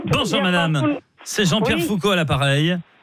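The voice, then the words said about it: Imitates another person's voice. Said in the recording (French): “Ton imitation”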